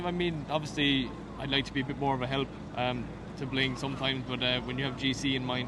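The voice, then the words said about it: Irish accent. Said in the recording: “we always love an Irish accent, don't we?”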